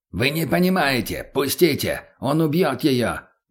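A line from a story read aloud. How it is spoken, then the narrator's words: Shouted. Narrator (Russian): наконец прокричал тот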